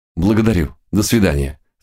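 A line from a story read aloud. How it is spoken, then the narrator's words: Agitated voice. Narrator (Russian): сказал он взволнованным голосом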